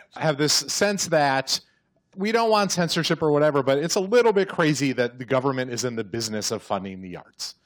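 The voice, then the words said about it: Midwestern American accent. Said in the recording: “Stop making fun of my Midwestern accent.”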